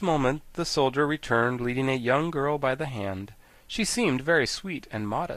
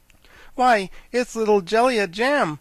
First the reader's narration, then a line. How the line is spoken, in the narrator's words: exclaimed the Scarecrow